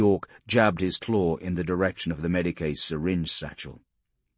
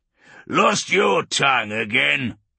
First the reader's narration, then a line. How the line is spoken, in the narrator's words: Urgork grunted, looking disappointed